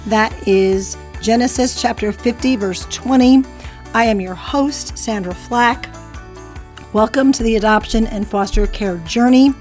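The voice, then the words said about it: Raspy, deeper voice. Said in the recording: “apologize for my voice... I'm still battling these allergies... I've got that raspy, deeper voice”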